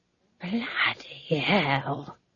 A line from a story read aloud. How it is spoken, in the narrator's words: She whispered